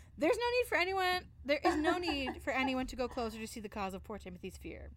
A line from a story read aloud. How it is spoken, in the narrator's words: I said, laughing